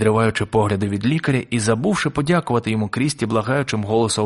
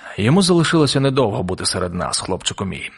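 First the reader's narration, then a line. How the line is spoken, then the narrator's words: Sad doctor. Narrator (Ukrainian): сумно відповів лікар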